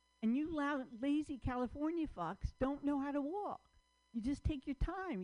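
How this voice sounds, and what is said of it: New York accent. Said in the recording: “I used to live in New York ... You can hear it in my accent”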